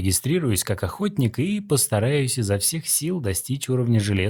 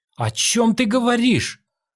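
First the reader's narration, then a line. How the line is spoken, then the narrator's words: Shouting. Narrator (Russian): закричала она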